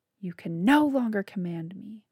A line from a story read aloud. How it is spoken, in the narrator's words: Bo screamed